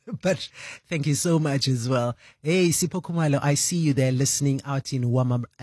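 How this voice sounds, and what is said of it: Tired, worn-out voice. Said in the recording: “Maybe you can tell from my voice, which, yeah, it was a long night.”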